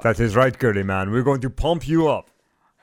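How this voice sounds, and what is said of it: Put-on Austrian accent. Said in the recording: “How is your Austrian accent? ... I want to hear you say, you're going to pump us up”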